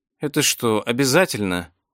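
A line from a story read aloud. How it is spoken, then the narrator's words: Drowsy heat-weary mutter. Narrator (Russian): пробормотала разморенная жарой Виктория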